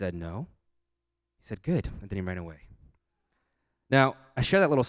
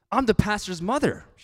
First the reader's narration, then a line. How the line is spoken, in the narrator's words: she said furiously